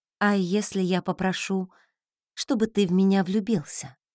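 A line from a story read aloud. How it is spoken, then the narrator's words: Quiet question. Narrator (Russian): тихо спросила я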